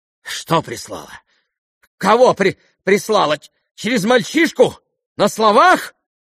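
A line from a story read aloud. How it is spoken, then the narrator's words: Sudden exclamation again. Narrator (Russian): воскликнула вдруг опять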